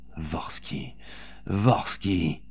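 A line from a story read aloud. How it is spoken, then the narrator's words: Anguished moan. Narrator (French): gémissait-elle, assaillie par le souvenir de son mari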